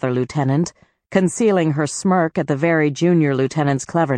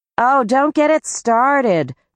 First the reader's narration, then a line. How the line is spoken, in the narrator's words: groaned another lieutenant